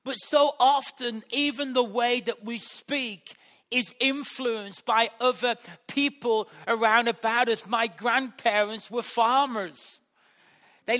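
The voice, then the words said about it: Black Country West Midlands accent. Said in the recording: “where I was brought up in West Bromwich. And that has influenced my accent ... the black country”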